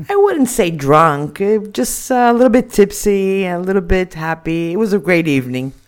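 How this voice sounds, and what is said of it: American accent. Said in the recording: “I notice a strange accent here. Normally, everyone on this show is basically from the south of England. ... I'm from Miami, Florida. ... An American on the show.”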